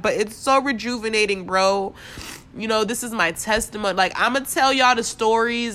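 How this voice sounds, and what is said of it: Voice cracking, holding back tears. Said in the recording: “my voice is cracking because I'm trying not to cry”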